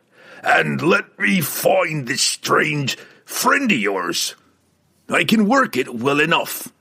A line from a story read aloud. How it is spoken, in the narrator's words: Brunner growled in reply